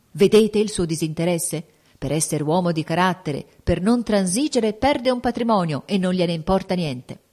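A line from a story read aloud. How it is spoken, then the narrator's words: Supporters exclaiming. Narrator (Italian): i fautori del principino esclamarono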